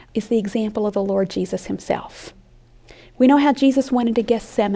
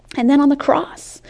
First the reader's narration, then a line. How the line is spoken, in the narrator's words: he cried out